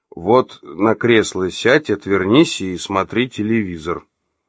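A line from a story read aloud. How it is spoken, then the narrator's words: Calm reply. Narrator (Russian): ответил спокойно Олег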